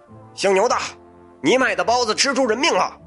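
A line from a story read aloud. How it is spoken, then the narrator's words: Clamoring. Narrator (Chinese): 嚷嚷着，牛大发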